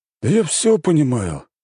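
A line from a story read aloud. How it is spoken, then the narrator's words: King sighing. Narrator (Russian): вздохнул король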